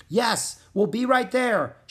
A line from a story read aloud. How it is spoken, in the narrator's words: shouted Jack